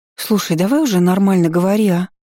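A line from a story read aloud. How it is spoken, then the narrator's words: Sighing. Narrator (Russian): вздохнула я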